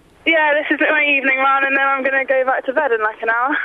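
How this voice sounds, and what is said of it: Out of breath, breathless speech. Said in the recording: “Sorry, I'm out of breath. ... You're making me feel quite breathless”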